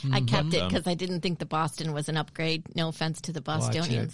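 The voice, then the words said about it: Midwestern accent with a twang. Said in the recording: “you grew up in the Midwest? ... Oh, you hear my accent? ... I was picking up a twang.”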